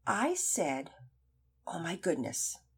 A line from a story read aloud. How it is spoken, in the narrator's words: She answered softly